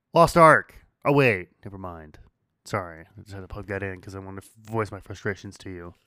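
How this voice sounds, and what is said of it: Hoarse, strained voice. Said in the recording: “Your voice starting to hurt? ... Yeah, I'm losing my voice.”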